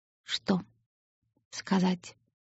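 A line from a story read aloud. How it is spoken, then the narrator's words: Whisper. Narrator (Russian): прошептал Оникс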